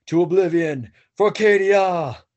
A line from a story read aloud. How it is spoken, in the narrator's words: My squad continues shouting